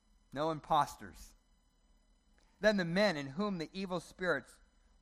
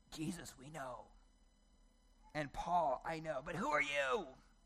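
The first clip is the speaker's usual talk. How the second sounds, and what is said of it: Menacing demon voice. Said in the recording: “It's my best demon voice.”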